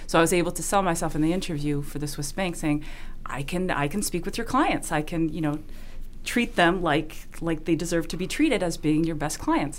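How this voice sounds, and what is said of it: Slight Swiss accent. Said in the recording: “I know there's a slight accent”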